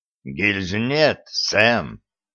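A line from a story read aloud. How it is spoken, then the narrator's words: Hoarse voice. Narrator (Russian): хрипло сказал он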